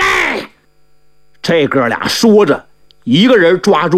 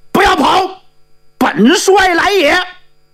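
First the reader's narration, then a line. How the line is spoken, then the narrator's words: Shouting. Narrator (Chinese): 喊这话的不是别人，正是独家城的元帅活阎王朱豹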